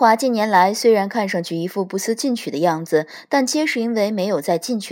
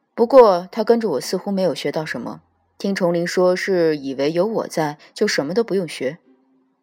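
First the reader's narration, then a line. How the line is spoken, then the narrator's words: Flat, indifferent. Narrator (Chinese): 淡淡道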